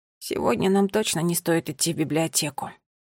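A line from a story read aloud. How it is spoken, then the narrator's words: Quiet. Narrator (Russian): тихо закончил за сестру Финн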